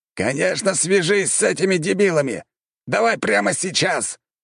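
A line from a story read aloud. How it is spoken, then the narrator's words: Roared. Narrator (Russian): взревел командующий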